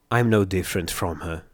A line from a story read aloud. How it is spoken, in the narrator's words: I muttered softly, voicing the poisonous words